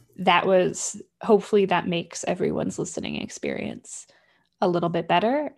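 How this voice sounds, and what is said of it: Vocal fry. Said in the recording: “now my vocal fry will just be my vocal fry. It won't be like tinny vocal fry.”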